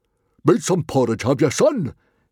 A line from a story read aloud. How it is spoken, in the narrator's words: roared